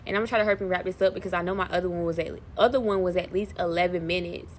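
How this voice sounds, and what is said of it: Very fast speech. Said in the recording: “I just said that so fast”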